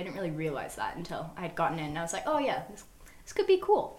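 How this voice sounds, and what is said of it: Mixed Australian-American accent. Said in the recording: “I was originally born in Australia, which is why I have like a weird ass accent ... like the vowels are similar to what I had when I was younger. So I moved to America when I was 6”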